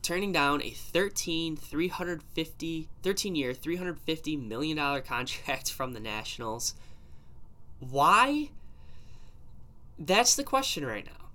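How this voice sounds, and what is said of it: Slightly sick, congested voice. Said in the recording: “if I sound a little sick, just got a little allergy starting up again”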